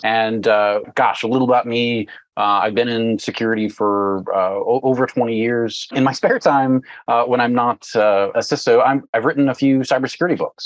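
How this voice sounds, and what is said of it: Regional Texas accent. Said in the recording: “If you can tell from my accent,... here in Dallas”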